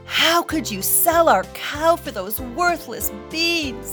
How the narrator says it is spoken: cried

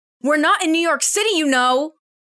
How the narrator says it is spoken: Kiki yells from a long distance behind Tia

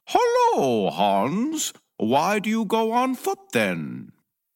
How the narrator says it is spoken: The rider called out

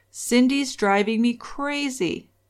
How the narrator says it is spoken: One night he lost his temper and he yelled

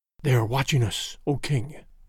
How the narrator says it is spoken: whispered

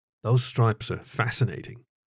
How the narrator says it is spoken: he said softly

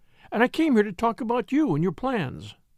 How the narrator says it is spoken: she exclaimed

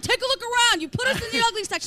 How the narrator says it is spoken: And then he starts yelling

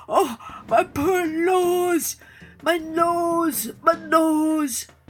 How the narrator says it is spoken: the lion began to moan

